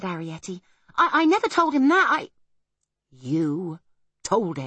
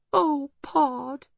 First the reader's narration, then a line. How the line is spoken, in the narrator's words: whimpered Homily